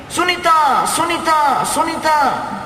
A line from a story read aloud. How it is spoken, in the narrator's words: He was shouting loudly